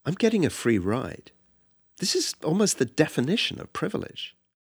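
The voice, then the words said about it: British accent. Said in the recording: “British accent.”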